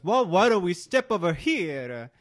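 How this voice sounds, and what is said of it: Put-on Italian accent. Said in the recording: “That's my Italian accent. ... It's as good as their Italian accent.”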